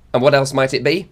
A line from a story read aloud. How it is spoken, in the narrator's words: snapped Connie